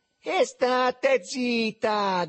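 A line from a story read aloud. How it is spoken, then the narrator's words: Sardonic shout through cupped hands. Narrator (Italian): gridò sardonico il Riccetto, con le mani a imbuto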